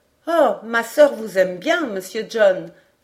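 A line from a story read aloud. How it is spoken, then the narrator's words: Exclaiming. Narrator (French): s'écria Robert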